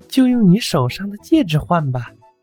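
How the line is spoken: Sighing while eating. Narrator (Chinese): 阿笨猫一边吃一边叹息

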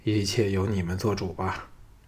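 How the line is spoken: Sighing. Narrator (Chinese): 叹了口气说

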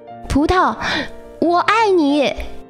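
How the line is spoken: Shouting while swimming. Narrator (Chinese): 我一边游泳一边大喊

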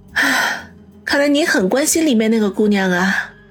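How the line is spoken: Disappointed sigh. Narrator (Chinese): 王小磊脸色微微一暗，叹口气说道

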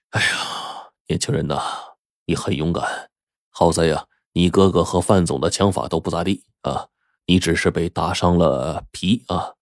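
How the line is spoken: Old man sighing. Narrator (Chinese): 老刑警就叹息说

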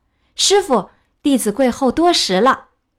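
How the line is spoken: Hurried call. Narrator (Chinese): 悟空忙叫道

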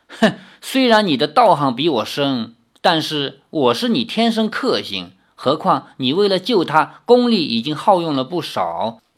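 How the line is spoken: Cold sneer. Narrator (Chinese): 毒娘子冷笑着说

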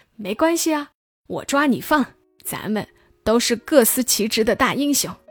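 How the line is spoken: Cheerful, grinning. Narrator (Chinese): 将军就笑嘻嘻地说

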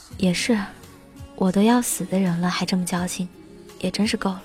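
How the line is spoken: Sighing, resigned. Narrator (Chinese): 大头叹了口气说

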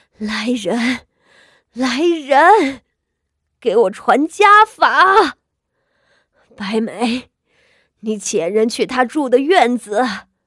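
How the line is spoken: Panting, fierce shout. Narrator (Chinese): 她急促的喘息着……厉喝道

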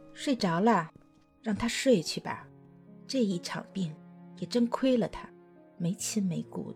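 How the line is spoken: Quiet, soft. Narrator (Chinese): 秀珍…小声的说

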